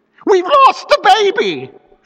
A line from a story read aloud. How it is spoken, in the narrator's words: she screamed